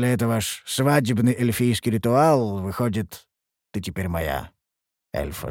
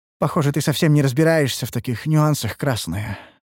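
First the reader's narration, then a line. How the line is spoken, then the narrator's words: Sigh. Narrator (Russian): вздохнула Ульданте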